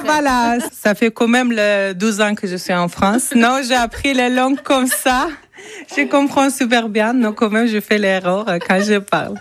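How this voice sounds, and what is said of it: Non-native French accent. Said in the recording (French): “Désolée pour mon accent.”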